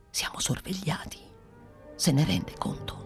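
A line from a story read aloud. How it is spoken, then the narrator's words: Whisper. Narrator (Italian): soggiunse bisbigliando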